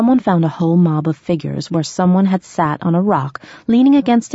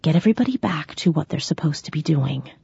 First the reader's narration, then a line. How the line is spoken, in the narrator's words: I whispered again